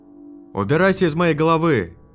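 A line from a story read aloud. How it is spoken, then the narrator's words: Yelling. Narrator (Russian): заорал я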